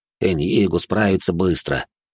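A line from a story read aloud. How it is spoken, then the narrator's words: Snorting. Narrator (Russian): хмыкнул кардинал Виссарион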